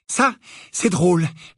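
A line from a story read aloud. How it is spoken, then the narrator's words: Trembling interruption. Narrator (French): l'interrompit Harry d'une voix tremblante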